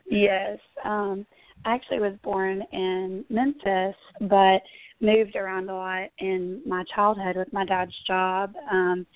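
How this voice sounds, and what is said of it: Southern US accent. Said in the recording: “I can tell by your accents, you probably grew up there ... in the South”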